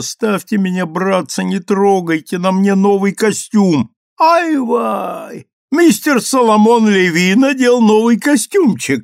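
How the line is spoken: Joyful squealing voices. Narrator (Russian): визжали радостные голоса

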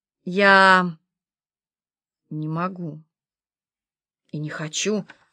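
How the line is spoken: Plain. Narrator (Russian): сказала Валерия

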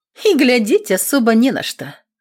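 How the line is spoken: Teasing snort. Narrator (Russian): хмыкнула Аксинья, чтобы позлить хозяина

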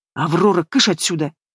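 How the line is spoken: Quiet command. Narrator (Russian): Негромко командует брат

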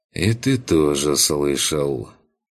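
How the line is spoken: Glum statement. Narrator (Russian): уныло констатировал Курт

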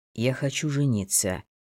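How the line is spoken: Quiet. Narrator (Russian): тихонько сказал Евгений

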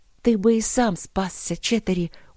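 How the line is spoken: Convinced whisper. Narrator (Russian): убежденно прошептала Алина

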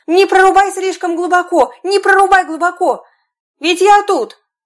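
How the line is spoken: Screaming with all strength. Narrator (Russian): мальчик с пальчик закричал ему, что было мочи

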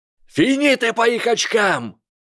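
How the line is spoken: Shout. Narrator (Russian): закричал Блейз Забини

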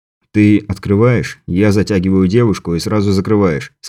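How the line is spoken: Plain. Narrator (Russian): сказал Андрей Мухе

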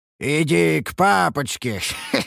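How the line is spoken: Eerie croaking voice. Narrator (Russian): Проговорил я жутким каркающим голосом

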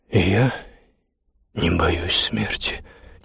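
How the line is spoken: Quiet reply. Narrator (Russian): тихо ответил

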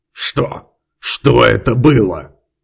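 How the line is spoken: Hoarse wheeze. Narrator (Russian): Прохрипел, поднимаясь с пола, сеньор Хорхе

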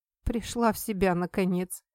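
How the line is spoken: Smirking snort. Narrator (Russian): хмыкнул Ли Сухен

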